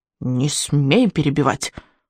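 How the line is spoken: Growl, old man. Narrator (Russian): рыкнул старый сморчок

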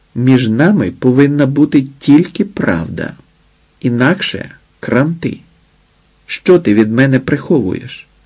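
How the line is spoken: Sudden startled whisper. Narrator (Ukrainian): смикнулася і раптом прошепотіла

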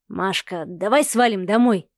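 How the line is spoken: Whisper. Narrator (Russian): шепнул Сава

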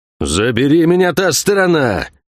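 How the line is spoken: Impatient roar. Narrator (Russian): взревел Кивилдамонтаг, теряя терпение

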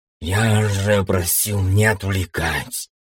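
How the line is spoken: Displeased hiss. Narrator (Russian): недовольно прошипел спорящий с бездной

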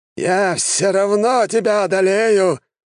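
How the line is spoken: Growled in frustration. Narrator (Russian): зарычал маг после сотой попытки сразить меня своим заклинанием

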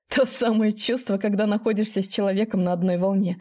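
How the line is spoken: After laughing. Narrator (Russian): сказал он, отсмеявшись

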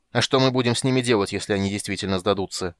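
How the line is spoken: Irritated interruption. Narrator (Russian): раздраженно перебил его Тан

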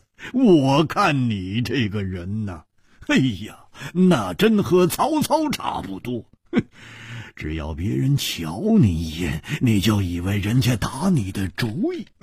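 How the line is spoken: Amused laughter. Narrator (Chinese): 胡铁花反而笑了，摇着头笑

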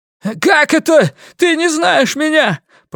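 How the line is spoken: Piercing shout. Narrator (Russian): пронзительно выкрикнул он

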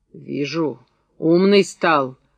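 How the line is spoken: Angry. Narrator (Russian): зло проговорил Устин

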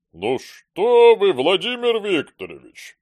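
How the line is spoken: Booming drone. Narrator (Russian): прогудел директор

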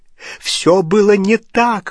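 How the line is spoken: Exclaiming. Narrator (Russian): воскликнул Дож

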